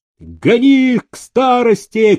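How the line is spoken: Shouted. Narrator (Russian): крикнул ямщику кузнец

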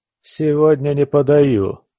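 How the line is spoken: Muttered through clenched teeth. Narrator (Russian): процедил я

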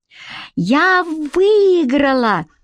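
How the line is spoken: Joyful child shouting. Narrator (Russian): радостно закричала толстенькая девочка под окном

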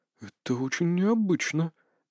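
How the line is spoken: Muttered. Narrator (Russian): пробормотал Попов

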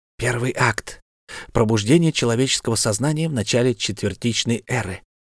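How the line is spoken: Whispered. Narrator (Russian): шепнула Анаэна

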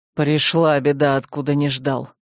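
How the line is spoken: Through gritted teeth. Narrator (Russian): Сквозь зубы проговорил он

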